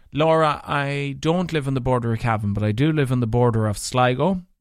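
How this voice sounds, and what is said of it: Mixed northwest Irish accent. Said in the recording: “your accent doesn't sound like Leitrim ... this mutt of an accent ... not having a true Leitrim accent ... a mix of primarily Donegal, so primarily Leitrim. Then the next biggest mix would be Donegal. Then there'd be a spicen of Sligo, and there'd be a spicen of Fermanagh.”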